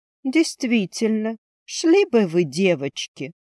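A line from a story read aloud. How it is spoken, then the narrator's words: Purring. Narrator (Russian): промурлыкала Ильва, потягиваясь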